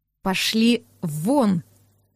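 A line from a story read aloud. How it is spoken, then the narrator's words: Savage muttering through teeth. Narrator (Russian): процедил дикарь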